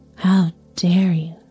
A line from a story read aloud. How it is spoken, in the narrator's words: she said